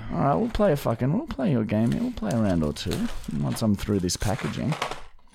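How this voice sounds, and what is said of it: Strained, damaged-sounding voice. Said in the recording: “my voice is all fucked again for some reason after speaking German”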